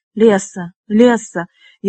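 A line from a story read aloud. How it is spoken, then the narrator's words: Hoarse pleading. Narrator (Russian): Его хриплый голос звучал, как мольба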